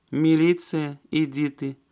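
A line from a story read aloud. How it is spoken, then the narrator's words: Drawn-out young woman's voice. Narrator (Russian): протянула юная красавица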